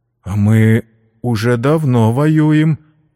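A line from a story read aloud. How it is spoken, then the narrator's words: Uncertain. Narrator (Russian): неуверенно сказал генерал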